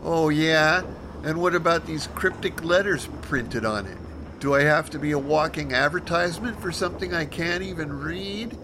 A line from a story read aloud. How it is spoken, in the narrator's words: she whined